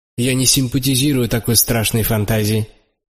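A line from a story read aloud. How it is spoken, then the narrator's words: Sharp. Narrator (Russian): сказал я резко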